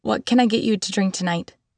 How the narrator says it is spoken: She laughed a cruel, mocking sound

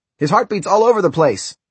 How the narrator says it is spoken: Someone shouted

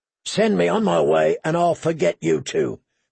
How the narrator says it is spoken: Clegane rasped

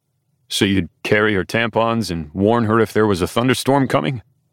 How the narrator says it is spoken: Les says with a chuckle

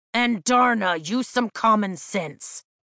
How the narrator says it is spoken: Tarn snaps

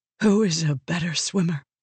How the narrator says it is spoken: Vale whispered

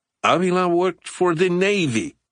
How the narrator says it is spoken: Garza spluttered

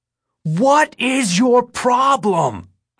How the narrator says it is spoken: I shout

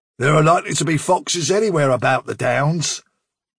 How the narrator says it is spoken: said Bigwig sharply

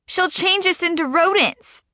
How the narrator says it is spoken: Freckles yells

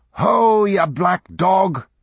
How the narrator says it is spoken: shouted the old teamster

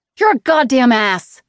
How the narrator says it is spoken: she screamed

